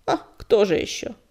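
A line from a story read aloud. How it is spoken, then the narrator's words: Grumbling old woman. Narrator (Russian): буркнула старуха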